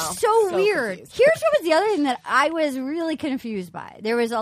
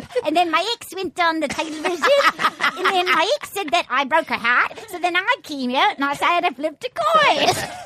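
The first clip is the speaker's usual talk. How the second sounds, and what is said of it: Irish leprechaun accent. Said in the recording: “You sound like a leprechaun.”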